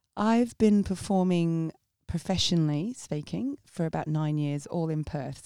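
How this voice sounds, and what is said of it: English accent, mix of Essex, Sussex, posh. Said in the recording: “I have an English accent that kind of flits in between Essex, Sussex, posh”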